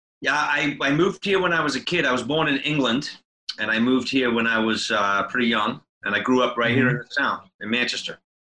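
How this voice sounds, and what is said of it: Slight mixed accent. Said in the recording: “I hear a little bit of an accent there ... It's a hodgepodge of sorts”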